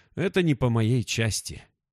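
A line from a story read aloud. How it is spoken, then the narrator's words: Sighing. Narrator (Russian): Корвалес вздохнул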